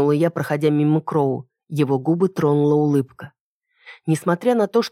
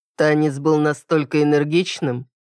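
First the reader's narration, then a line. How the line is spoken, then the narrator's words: Mocking. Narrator (Russian): насмешливо поинтересовался он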